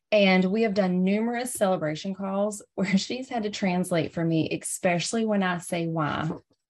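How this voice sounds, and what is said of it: Southern US accent. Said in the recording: “I'm from the South, hence my Southern accent”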